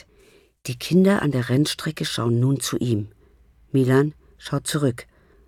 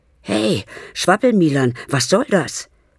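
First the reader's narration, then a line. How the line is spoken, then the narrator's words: Panting. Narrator (German): keucht Lasse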